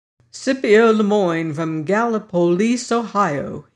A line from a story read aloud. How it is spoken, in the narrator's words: he said